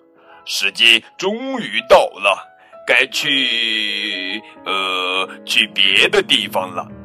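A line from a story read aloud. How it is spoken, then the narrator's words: Booming, loud dinosaur father. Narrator (Chinese): 恐龙爸爸声音洪亮，大声说道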